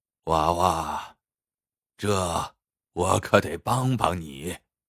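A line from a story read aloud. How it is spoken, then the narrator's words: Sighing old man. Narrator (Chinese): 老人听了，叹了口气说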